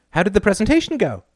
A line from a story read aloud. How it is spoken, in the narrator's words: She asked brightly